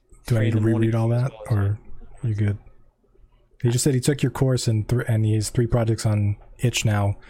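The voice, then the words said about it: Low, hoarse, fading voice. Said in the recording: “bedroom voice again ... I'm losing my voice because I've been in meetings all day.”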